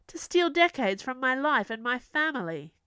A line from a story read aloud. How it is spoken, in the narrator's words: Queen Ella yelled